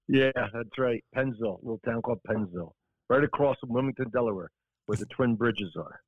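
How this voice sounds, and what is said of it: South Jersey accent. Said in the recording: “You grew up in South Jersey. I'm from Philly, so I'm kind of, I hear it in your voice, in your accent.”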